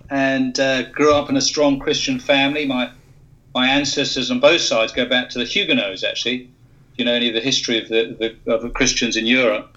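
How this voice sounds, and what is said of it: British English accent. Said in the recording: “as you can tell from my accent, originally from the UK”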